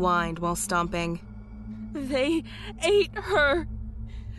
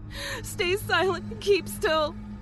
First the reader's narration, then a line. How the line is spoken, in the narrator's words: She said frantically